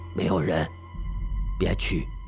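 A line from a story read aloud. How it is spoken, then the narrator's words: Quiet voice. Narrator (Chinese): 表舅小声的说着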